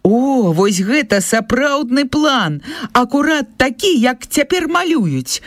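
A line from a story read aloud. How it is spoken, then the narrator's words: Man exclaiming. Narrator (Belarusian): усклікнуў ён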